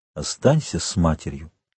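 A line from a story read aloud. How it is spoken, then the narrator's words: Gentle. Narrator (Russian): он ласково сказал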